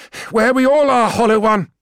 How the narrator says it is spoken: she said, panting

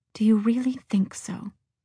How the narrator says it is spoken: Marion said the words quietly, almost under her breath

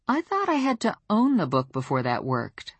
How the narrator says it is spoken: I said in a puzzled voice

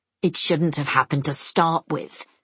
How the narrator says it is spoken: Semyon growls

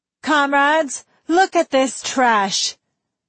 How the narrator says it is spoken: the tall girl shouted

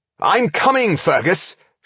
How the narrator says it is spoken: shouted his friend

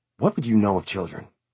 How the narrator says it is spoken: She whispered

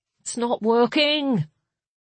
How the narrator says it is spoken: Kettle moaned

